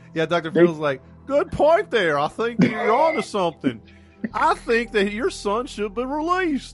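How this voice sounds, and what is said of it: Imitates another person's voice. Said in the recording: “I like my Dr. Phil accent.”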